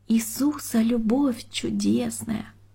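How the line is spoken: Timid thin singing voice. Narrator (Russian): Таня с опаской посмотрела на старую Григорьевну и несмело тоненьким голосочком запела

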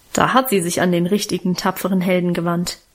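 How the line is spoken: Mocking. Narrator (German): meinte ich spöttisch

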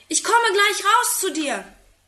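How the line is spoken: Calling from window. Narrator (German): ruft aus dem Fenster

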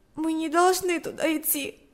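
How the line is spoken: Sobbing speech. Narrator (Russian): сказала она, всхлипнув

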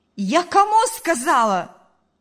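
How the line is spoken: Mother shouting. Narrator (Russian): закричала мать

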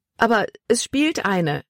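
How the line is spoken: Exclaiming. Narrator (German): rief sie aus

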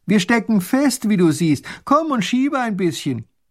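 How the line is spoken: Small grand duke calling out. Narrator (German): Der kleine Großherzog streckt den Kopf aus dem Kutschenfenster und ruft

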